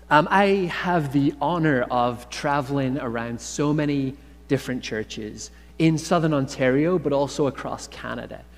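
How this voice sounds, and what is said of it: Irish accent. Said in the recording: “my accent is from Ireland”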